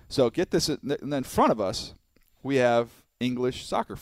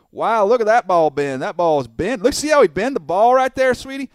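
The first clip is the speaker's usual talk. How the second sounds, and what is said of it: Imitated thick Southern US accent. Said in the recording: “the thickest southern accent you've ever heard before”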